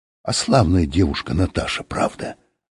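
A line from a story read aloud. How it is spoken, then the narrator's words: Whisper. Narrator (Russian): сказал кто-то шепотом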